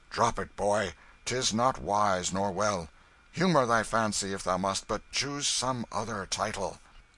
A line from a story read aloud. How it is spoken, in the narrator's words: the ruffler said, firmly, but with an accent of good nature